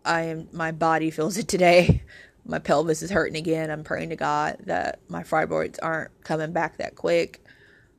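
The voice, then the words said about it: Hoarse voice. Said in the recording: “as you can hear my voice, I'm hoarse.”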